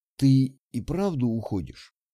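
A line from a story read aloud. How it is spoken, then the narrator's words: Low husky female voice. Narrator (Russian): Голос у нее был низкий, с хрипотцой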